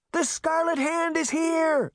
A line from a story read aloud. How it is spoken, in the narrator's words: Sabrina shouted down